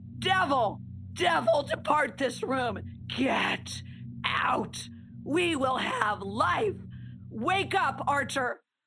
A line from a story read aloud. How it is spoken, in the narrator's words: screaming